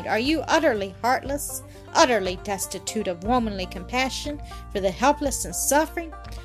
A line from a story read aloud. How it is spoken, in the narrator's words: he exclaimed